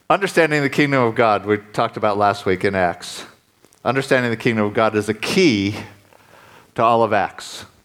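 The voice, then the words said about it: Speaks with a noticeable accent. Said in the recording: “if you can't understand my accent”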